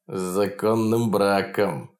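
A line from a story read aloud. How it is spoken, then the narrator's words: Mocking, through teeth. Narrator (Russian): насмешливо процедил маленький мужичонка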